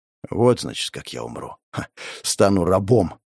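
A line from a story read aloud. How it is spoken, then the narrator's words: Wry snort. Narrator (Russian): хмыкнул я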